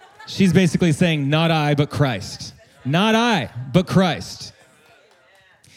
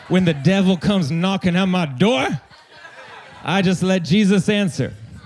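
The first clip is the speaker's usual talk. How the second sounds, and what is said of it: Put-on Southern American accent. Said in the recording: “I wanted to give it a Southern accent ... Didn't that feel good with a Southern accent?”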